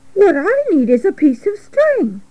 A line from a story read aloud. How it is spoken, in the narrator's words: said Wilbur cheerfully